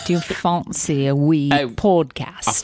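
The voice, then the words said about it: Put-on Scottish accent. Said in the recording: “that was a Scottish accent.”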